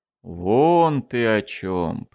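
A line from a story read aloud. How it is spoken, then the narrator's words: Drawn-out drawl. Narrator (Russian): протянул Эссен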